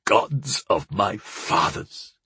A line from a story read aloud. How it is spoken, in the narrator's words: Gakal croaked